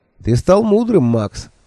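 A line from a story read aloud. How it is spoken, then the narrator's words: Cheerful. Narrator (Russian): весело сказал он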